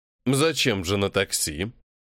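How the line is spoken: Through gritted teeth. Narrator (Russian): процедил Кирилл

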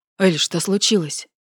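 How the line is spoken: Frightened question. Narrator (Russian): испуганно спросил Власов

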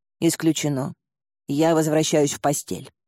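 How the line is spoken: Dismissive snort. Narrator (Russian): фыркнула она

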